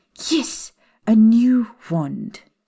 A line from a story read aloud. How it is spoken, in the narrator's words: Professor McGonagall snapped impatiently